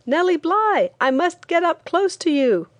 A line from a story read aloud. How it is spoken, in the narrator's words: one man on the outskirts of the crowd who shouted